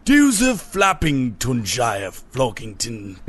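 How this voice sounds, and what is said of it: Put-on posh English accent. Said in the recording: “it was just like a posh voice ... I knew it was like posh”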